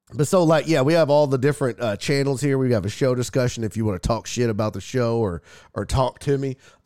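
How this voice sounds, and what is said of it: Congested, sick-sounding voice. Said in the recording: “if I sound sick, I'm not. I'm not sick. It's either allergies or a head cold.”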